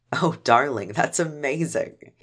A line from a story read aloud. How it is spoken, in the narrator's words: he said as he giggled